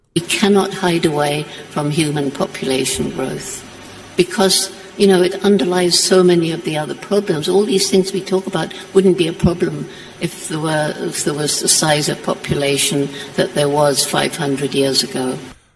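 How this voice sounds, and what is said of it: Woman speaking with thick accent. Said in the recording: “she's got a thick accent”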